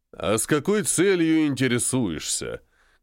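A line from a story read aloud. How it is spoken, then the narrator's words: Menacing. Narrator (Russian): грозно сказал я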